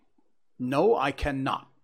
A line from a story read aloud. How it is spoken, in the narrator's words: I answered sharply